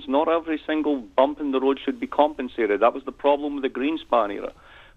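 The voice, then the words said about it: Scottish accent. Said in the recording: “a little Scott in your accent ... More than a little. More than a little. ... I actually have the same accent as Shrek”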